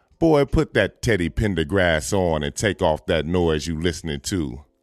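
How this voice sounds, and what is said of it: Imitates another person's voice. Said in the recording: “Oh, I sound like my mama.”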